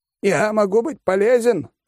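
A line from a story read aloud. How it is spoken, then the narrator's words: Shout. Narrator (Russian): крикнул Компот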